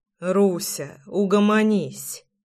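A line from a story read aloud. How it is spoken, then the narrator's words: Muttered. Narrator (Russian): пробормотал я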